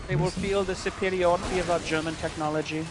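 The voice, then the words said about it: Mock German accent. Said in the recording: “cool German accent”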